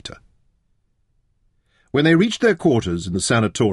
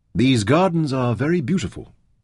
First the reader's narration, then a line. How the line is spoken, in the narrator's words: Taita said